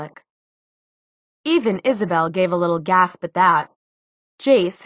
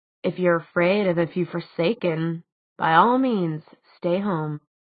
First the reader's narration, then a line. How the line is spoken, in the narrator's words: he said softly